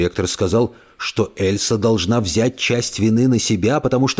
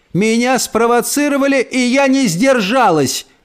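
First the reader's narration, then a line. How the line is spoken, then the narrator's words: Grandmother yelling. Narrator (Russian): орала бабушка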